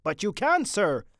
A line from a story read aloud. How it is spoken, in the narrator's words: said the sergeant anxiously